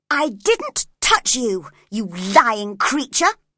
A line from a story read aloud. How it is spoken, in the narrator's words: cried angrily